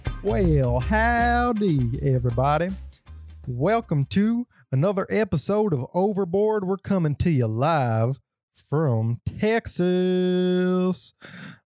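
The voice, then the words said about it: Put-on Texan accent. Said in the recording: “I already got a Texan accent.”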